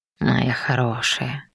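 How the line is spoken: Tender murmur. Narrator (Russian): пробормотал Раум с совершенно несвойственной ему нежностью

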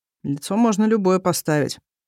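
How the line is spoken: Gloomy statement. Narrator (Russian): мрачно сообщаю

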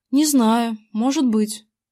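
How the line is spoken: Uncertain. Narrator (Russian): неуверенно отозвался я

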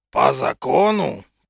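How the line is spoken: Fiercer growl. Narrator (Russian): прорычал он пуще прежнего

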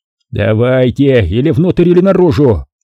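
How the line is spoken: Shouted. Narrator (Russian): крикнул Дженкинс Ширли

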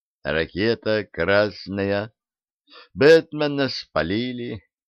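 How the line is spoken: Sad. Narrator (Russian): Аллилуев печально произнес

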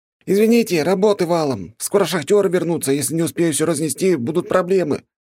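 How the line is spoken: Shouted while running. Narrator (Russian): выкрикнул парень, пробегая мимо

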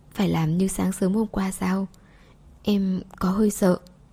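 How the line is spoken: Soft, timid question. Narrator (Vietnamese): Cô nhỏ giọng hỏi

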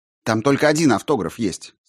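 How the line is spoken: Irritated. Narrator (Russian): сказал Грошев раздраженно

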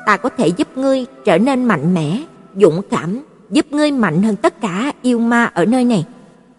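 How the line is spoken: Gentle soft, smiling. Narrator (Vietnamese): Nữ pháp sư mỉm cười, nhẹ nhàng nói khẽ

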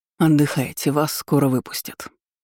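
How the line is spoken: Parting remark. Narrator (Russian): бросив на прощание

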